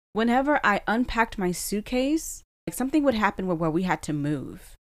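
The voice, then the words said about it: Emotional voice. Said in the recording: “why am I getting a little emotional?”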